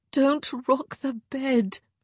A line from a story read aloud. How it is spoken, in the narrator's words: she moaned